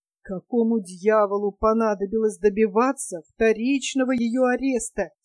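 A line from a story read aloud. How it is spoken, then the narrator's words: Plain. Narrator (Russian): спросил поэт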